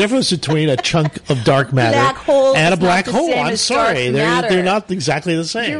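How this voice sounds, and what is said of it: Usual voice. Nothing is said of it.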